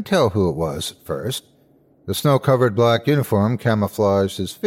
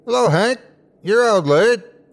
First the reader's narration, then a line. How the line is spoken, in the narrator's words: A figure standing in the yard yelled